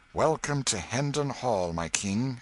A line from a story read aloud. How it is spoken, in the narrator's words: exclaimed Miles